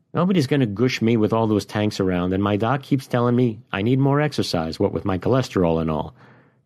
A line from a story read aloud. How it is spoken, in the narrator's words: the sergeant-at-arms said